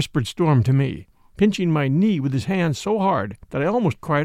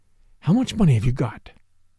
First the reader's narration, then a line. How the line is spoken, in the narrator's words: whispered Storm to me